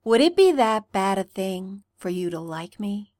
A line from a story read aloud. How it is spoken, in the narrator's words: Stiles asked, voice a silky smooth purr